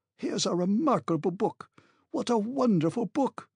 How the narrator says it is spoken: he was exclaiming

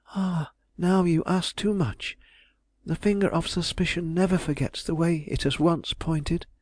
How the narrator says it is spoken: she sadly answered

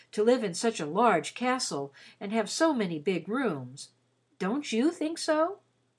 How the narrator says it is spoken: he said rather wistfully

